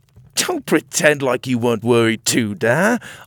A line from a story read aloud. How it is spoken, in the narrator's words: I laughed